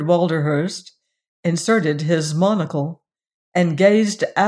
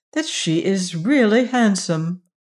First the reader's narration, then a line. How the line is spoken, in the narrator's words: said Lady Agatha gently